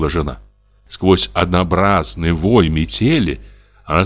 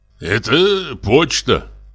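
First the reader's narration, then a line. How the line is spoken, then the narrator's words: Grumbled. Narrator (Russian): проворчал Савелий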